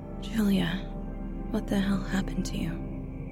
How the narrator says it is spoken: muttered, in frustration

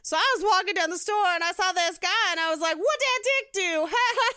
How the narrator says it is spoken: yelled it at each other forever

